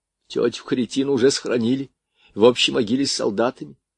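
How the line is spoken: Sobbing report. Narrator (Russian): сообщил и всхлипнул

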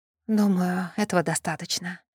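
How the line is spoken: Exhausted mutter. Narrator (Russian): обессиленно пробормотала Суарней

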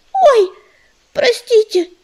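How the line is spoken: Squeaky small child. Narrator (Russian): пискнул малыш

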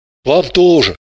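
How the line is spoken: Gruff mutter. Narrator (Russian): буркнул Орлов

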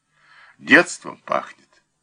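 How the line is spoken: Sad. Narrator (Russian): сказал печально

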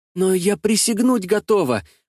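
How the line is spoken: Excited old woman. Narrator (Russian): взволнованно сказала старушка

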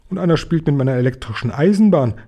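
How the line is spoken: Calling out. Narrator (German): rief Philipp

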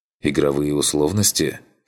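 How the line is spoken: Skeptical snort. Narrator (Russian): хмыкнул я

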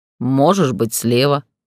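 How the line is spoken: Amused snort. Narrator (Russian): хмыкнул Гроу

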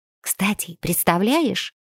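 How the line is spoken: Girl whispering. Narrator (Russian): Зашептав, девочка

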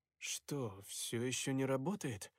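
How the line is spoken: Muttered. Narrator (Russian): пробормотал я наконец

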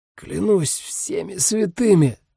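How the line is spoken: Hoarse rasp. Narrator (Russian): прохрипел Дамиан

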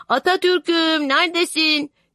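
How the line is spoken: Shout. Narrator (Turkish): diye bağırınca

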